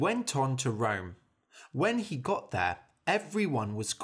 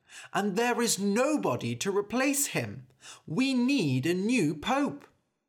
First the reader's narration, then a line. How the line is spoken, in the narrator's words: cried a man